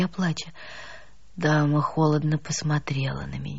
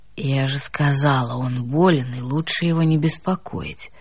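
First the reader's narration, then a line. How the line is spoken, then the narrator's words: Low booming drone. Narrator (Russian): прогудела она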